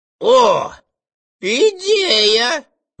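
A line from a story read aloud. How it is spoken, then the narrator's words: Exclaiming. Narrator (Russian): воскликнул фагот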